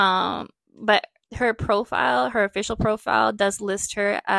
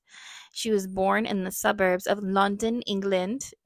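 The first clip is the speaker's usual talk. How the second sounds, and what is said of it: Poor put-on London accent. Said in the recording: “Ew, that was a terrible accent. London.”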